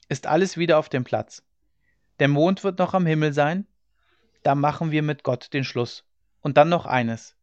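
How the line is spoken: Calling out. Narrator (German): rief er

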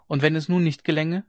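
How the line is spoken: Called out again. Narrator (German): rief sie wieder

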